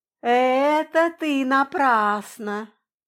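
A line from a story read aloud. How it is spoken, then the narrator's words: Drawn-out, drawling. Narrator (Russian): протянула Кирьянова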